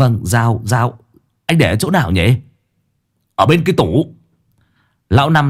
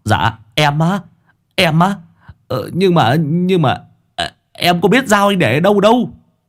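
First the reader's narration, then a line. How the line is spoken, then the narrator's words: Stammering. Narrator (Vietnamese): lắp bắp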